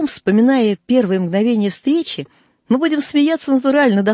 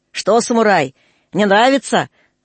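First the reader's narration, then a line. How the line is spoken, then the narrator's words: Gleeful shouting. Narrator (Russian): егерь сладострастно кричал на него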